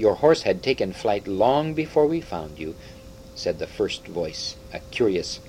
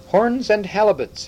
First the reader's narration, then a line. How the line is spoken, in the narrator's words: exclaimed the third voice